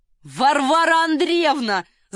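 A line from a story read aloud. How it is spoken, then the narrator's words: Shouting. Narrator (Russian): закричал Ахиллес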